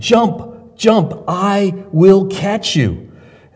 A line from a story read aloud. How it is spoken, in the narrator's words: his father cried to him